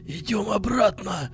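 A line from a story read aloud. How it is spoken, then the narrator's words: Hoarse wheeze. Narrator (Russian): прохрипел Вадим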